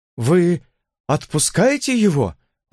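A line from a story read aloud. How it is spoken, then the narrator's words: Grateful relieved exclamation. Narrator (Russian): воскликнул Тилпит с благодарным облегчением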